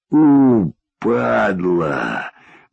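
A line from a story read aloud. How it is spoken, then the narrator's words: Sorrowful exhale. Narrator (Russian): горестно выдохнул Болик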